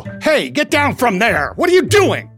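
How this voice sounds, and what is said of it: Loud yelling imitation of another person. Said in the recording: “it was mostly just about getting loud. The louder I go, the more it sounds like Tom ... my Woody was my impression of Tom yelling at his kids”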